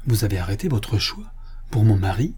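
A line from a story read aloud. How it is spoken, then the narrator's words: Calm, composed tone. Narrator (French): dit la jeune fille d'un ton posé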